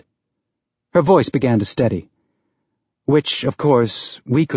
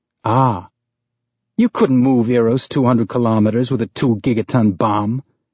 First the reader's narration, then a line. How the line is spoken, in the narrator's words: Amos said with a snort